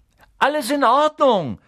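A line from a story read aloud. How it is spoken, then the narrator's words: Calling upward. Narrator (German): rief er nach oben zu dem Lichtfleck der offenen Luke, die jetzt so groß wirkte wie eine Briefmarke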